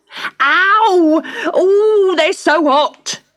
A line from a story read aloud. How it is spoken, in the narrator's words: yelled Cedric